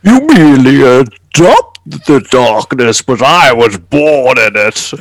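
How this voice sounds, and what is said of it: Impression of Bane's villain voice. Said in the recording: “let's fucking all do our fucking Bane impersonation ... Why do I sound like Bojo? ... That was pretty good. ... That was not bad.”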